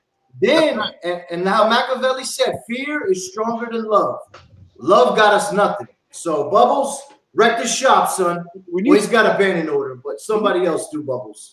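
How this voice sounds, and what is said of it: Brooklyn accent, menacing tone. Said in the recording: “When you say that with a Brooklyn accent, you're absolutely terrifying.”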